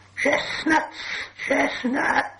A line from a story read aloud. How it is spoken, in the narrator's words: he hissed